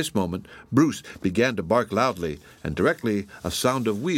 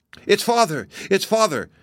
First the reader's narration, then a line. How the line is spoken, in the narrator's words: exclaimed Mark and Ruth, with shouts of welcome